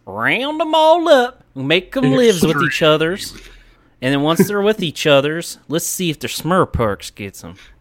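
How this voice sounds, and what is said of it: Put-on Texan accent. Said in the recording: “I am from Texas and in Texas while recording, so I'm going to go ahead and put on the accent for this.”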